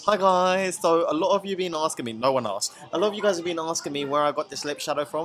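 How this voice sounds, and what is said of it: British influencer impression. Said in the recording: “Do a British one ... your British accent when it comes to doing, like, influencers”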